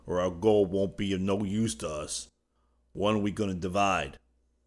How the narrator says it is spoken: grumbled Judson

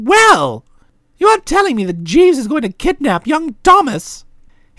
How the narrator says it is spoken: He tissed impatiently

